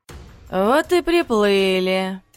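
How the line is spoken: Calm, indifferent statement. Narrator (Russian): На удивление спокойно, даже равнодушно констатировала Марина

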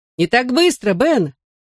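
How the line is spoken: Warning shout. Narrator (Russian): предупреждающе крикнул я

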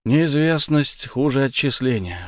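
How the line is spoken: Grumble. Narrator (Russian): буркнул Александр

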